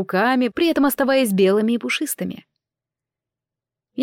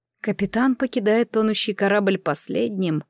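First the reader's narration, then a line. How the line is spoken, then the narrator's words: Muttered to herself. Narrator (Russian): пробормотала себе под нос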